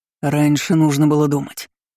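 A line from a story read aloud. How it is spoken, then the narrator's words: Man's growl. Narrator (Russian): рыкнул мужчина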